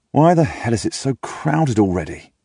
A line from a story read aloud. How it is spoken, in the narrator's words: I groan and ask